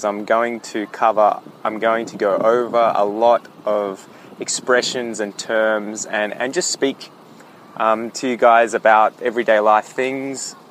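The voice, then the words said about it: Mild Australian accent. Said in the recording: “give you exposure to the Australian accent. So my accent isn't too thick”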